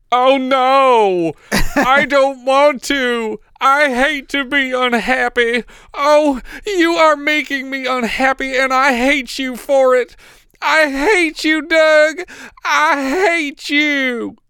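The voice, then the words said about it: Melodramatic imitation of a terrible performance. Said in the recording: “I am not exaggerating the way she says any of that line. That's exactly how she delivers it. ... mimicking terrible yeah. performance.”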